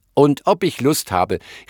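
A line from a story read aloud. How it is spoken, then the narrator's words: Small animal calling. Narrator (German): rief das kleine Tier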